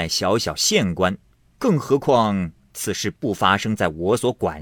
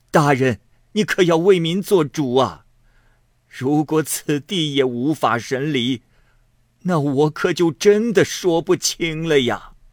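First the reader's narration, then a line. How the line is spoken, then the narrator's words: Wronged, weeping. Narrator (Chinese): 东林含冤哭泣着说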